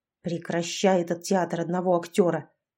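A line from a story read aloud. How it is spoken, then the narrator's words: Angry woman's voice. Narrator (Russian): зло сказала вторая женщина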